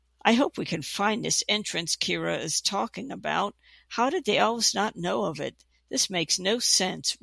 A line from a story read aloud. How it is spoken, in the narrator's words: Rhyneth mumbled out loud